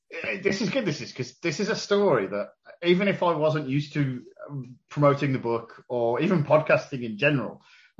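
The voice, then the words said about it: Birmingham (Brummie) accent. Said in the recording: “Brummie accent, you're from Birmingham”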